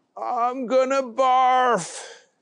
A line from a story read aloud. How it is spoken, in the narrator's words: a yell